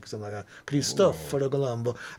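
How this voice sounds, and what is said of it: Cartoonish sing-song Italian accent. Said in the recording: “For the impersonation. That. Yeah, that was a little bit of a cartoon ... Put the little melody. That's the cartoon part ... We'll do that little inflection melody they use”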